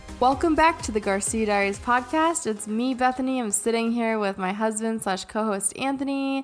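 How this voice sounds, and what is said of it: Tired-sounding voice. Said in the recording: “my voice sounds tired as fuck tonight, it's because I'm tired as fuck”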